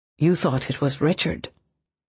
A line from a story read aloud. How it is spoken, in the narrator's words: Rourke said in an undertone